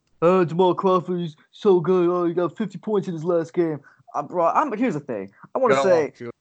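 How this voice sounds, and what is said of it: Imitates sports TV pundits. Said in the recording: “that was my impression of all the ESPN pundits talking about how Jamal Crawford deserves to be on an NBA team”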